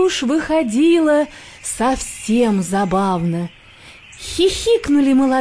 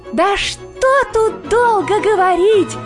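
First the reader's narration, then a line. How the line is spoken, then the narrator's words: Shouting, emboldened hare. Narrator (Russian): кричал расхрабрившийся окончательно заяц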